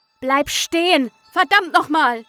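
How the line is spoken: Shouted after someone. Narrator (German): rief dem Wesen hinterher

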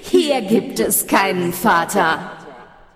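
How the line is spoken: Echoing laughter from darkness. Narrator (German): schallte es lachend aus der Dunkelheit

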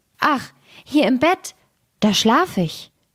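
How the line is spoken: Blood drop calling out. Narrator (German): rief der dritte Blutstropfen

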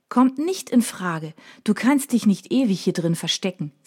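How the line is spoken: Plain. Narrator (German): sagt Mina

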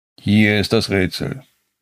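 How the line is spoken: Calm, wise voice. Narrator (German): begann Askar seine Stimme ruhig und weise

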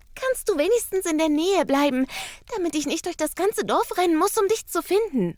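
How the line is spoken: Panting. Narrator (German): keucht

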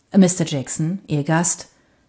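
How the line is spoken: Plain. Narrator (German): sagte der Kellner

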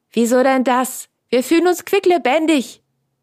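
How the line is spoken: Called out. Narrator (German): rief Franz

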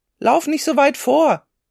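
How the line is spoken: Father calling out. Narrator (German): rief Martins Vater

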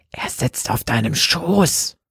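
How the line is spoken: Breathy whisper. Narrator (German): hauchte

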